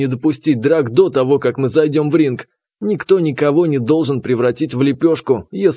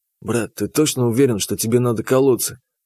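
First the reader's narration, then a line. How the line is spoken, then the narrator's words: Whispered in ear. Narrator (Russian): Шепнул я ему на ухо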